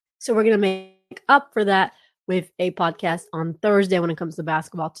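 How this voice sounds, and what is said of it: Hoarse, laryngitic voice. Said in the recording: “As you can hear from my voice, I'm still getting over a cold and a little bit of laryngitis.”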